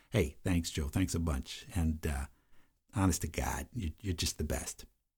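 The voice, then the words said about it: Put-on Chicago accent. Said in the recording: “he gets a Chicago accent from me”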